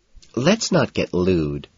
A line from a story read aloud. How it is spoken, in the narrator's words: she says